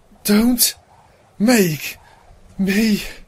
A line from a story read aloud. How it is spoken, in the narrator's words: Celestia panted